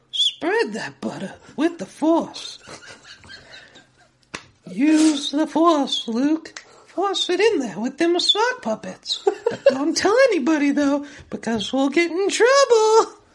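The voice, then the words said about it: Cartoon character voice, creepy old man. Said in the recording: “I only like doing Herbert. ... Your Herbert is nuts.”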